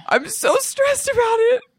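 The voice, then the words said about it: Fake crying. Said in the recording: “this is fake crying”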